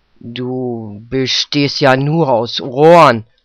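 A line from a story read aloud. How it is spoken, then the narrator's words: Husband growling. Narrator (German): knurrte ihr Mann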